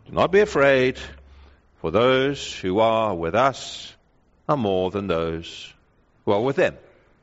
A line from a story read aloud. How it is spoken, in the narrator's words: He calmly says